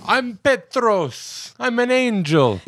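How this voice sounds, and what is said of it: Put-on Greek accent. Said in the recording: “he has a Greek accent.”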